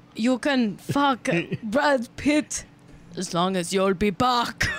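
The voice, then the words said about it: Put-on German accent, imitating another's voice. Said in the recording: “How do you do a German accent? ... I'm trying to do like Arnold Schwarzenegger. ... Do an Arnold Schwarzenegger voice. ... Let's hear the Schwarzenegger impression.”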